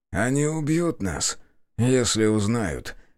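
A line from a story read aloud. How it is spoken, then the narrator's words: Heavy sigh. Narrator (Russian): тяжело вздохнул собеседник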